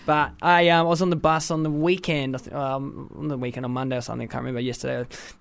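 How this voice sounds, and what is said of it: Australian accent. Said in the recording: “in my own Australian twang.”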